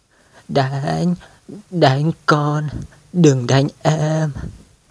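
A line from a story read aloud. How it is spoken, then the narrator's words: Trembling. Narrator (Vietnamese): Anh run rẩy nói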